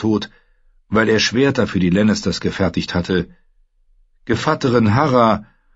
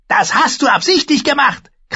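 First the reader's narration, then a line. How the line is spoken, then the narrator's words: Woman shrieking. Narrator (German): kreischte die Frau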